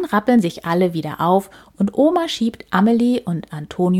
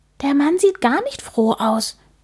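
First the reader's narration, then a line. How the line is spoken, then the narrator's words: Whisper. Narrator (German): flüstert Amelie Antonio zu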